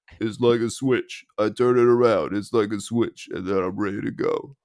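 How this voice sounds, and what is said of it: Imitates another person's voice. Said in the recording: “you got a good impression there.”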